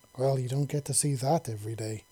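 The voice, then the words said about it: Wistful, longing tone. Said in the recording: “in a wistful voice.”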